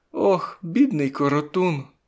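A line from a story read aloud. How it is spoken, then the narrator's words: Near sob. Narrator (Ukrainian): вона мало не схлипнула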